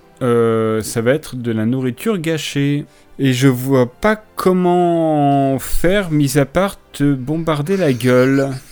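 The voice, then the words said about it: Put-on accent. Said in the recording (French): “T'as pris, pris un accent depuis tout à l'heure.”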